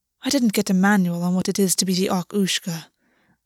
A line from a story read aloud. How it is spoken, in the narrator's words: Augus said dryly